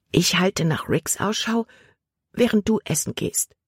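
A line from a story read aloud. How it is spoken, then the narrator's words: Whisper. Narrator (German): flüsterte Libby Caleb zu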